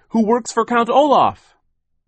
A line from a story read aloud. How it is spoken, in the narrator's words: Sonny cried